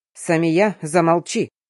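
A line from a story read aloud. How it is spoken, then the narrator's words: Father's rude interruption. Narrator (Russian): грубо перебил папа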